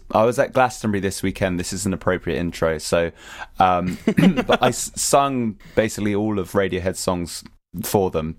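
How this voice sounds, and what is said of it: Strained, hoarse speaking voice. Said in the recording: “sorry, my voice is ridiculous... now I can't really talk very well”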